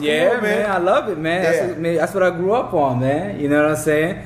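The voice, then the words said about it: East Coast Bronx accent. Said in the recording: “You got such an East Coast accent ... you from the Bronx, huh?”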